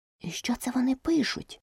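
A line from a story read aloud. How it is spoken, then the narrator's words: Whispered question. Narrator (Ukrainian): пошепки спитала Аліса у Грифона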